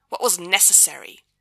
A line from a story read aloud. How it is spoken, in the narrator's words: the Archangel snaps